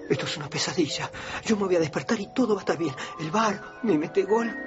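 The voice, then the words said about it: Argentine Spanish accent. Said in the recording (Spanish): “el doblaje original se hizo en argentino ... ese acento tan suyo que tienen los argentinos”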